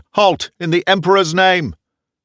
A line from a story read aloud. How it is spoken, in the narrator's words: I shouted